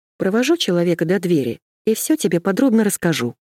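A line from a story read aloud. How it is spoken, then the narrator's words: Calm reply. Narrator (Russian): спокойно ответила я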